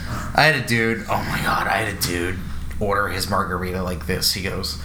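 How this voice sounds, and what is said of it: Usual voice. Nothing is said of it.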